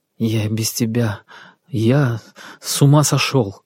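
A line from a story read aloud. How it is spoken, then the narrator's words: Trembling voice. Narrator (Russian): дрожащим голосом проговорил Сергей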